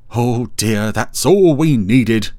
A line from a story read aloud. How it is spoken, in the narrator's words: exclaimed Dougal